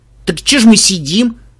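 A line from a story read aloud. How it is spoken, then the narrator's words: Exclamation. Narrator (Russian): воскликнул Ария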